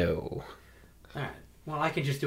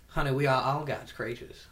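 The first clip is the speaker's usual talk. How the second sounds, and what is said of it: Gay Southern preacher voice. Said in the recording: “a gay Southern preacher voice”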